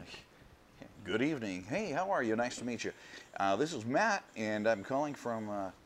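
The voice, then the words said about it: Polished newscaster-style voice. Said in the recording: “That's a pretty good news voice”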